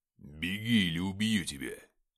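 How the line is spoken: Icy voice. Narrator (Russian): Ледяным голосом сказал Игнат

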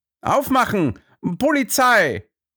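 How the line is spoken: Called, nearly accent-free German. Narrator (German): rief er in beinahe akzentfreiem Deutsch

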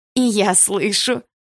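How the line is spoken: Nasty laughter. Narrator (Russian): противно засмеялась одна из ее подружек

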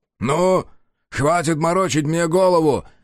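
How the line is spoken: Impatient bark. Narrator (Russian): рявкнул потерявший терпение Товата Сарику

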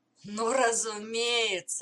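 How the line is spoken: Laughing. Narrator (Russian): рассмеялся Гордон

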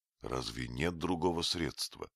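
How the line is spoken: Sad question. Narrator (Russian): спросил я грустно

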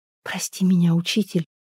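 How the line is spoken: Tearful remorseful whisper. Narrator (Russian): прошептала она сквозь слезы раскаяния

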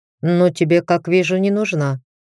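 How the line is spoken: Calm. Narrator (Russian): спокойно закончил за него Натан

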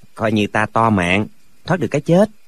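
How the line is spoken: Smiling. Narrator (Vietnamese): Lệnh Hồ Xung mỉm cười nói

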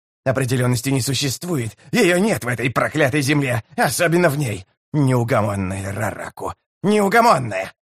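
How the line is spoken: Growling. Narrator (Russian): Зарычав, Калам

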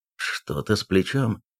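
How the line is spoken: Muttering. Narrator (Russian): пробормотал Эйлас

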